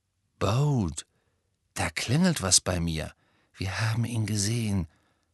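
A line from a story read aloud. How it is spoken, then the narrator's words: Whisper. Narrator (German): flüsterte Hermine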